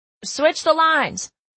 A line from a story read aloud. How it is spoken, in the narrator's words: I yelled to Emerson